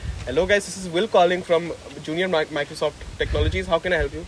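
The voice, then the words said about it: Put-on Indian accent. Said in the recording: “I can do the best Indian scammer accent.”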